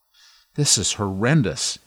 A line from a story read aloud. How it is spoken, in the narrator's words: Ian said, frustrated at the delay